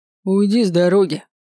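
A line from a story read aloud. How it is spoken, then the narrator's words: Growled. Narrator (Russian): прорычал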